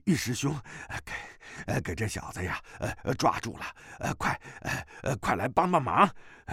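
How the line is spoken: Out of breath. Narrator (Chinese): 吴光胜的内力也是十成之中去了八成，气喘吁吁地说

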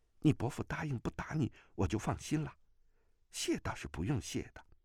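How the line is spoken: Low voice. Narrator (Chinese): 穆婉清 低声道

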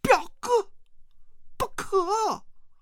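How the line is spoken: Shouting. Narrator (Chinese): 王语嫣大叫

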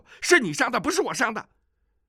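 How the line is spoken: Furious, loud. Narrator (Chinese): 那矮子暴跳如雷，大声地说

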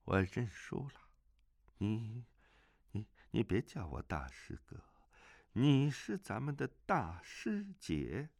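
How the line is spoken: Low voice. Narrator (Chinese): 摘星子低声说

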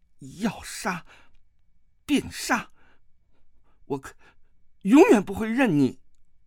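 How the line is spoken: Through gritted teeth. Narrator (Chinese): 他咬牙道

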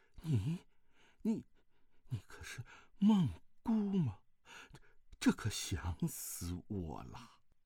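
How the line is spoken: Shocked, trembling voice. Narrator (Chinese): 虚竹大吃一惊，颤声道

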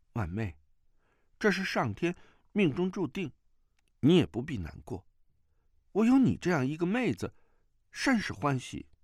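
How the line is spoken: Soft, comforting. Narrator (Chinese): 段玉柔声安慰

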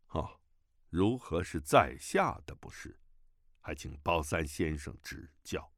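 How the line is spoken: Calm, indifferent. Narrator (Chinese): 乔峰却淡淡地说

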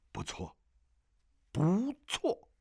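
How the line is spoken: Old man, soft and joyful. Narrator (Chinese): 弹琴老者一声欢呼 低声说

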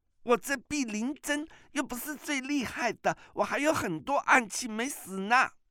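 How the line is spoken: Crying girl. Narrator (Chinese): 那少女哭着说

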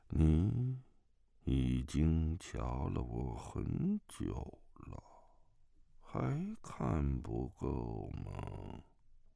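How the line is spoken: Flat monotone. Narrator (Chinese): 自始至终，那声音总是平平板板，没什么高低起伏

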